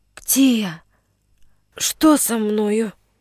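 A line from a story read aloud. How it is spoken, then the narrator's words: Weak voice. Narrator (Russian): спросил слабым голосом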